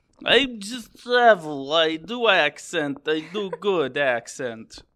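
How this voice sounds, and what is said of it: Put-on German/Transylvanian-sounding accent. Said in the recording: “My German accent's getting a little Transylvanian, I feel like... You're just traveling with your accent... I think that's the closest I've ever done to a Russian”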